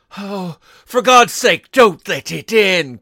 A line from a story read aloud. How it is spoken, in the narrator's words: cried the old man, trembling